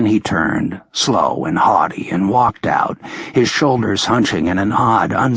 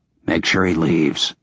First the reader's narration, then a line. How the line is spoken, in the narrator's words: I said quietly